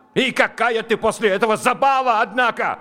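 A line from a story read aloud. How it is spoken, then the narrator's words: Yelling. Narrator (Russian): заорал он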